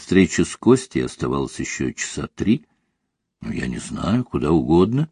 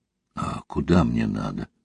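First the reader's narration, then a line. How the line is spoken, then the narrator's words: Confused question. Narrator (Russian): растерянно спросила Ольга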